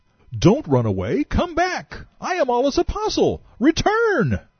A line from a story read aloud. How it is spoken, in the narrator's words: He cried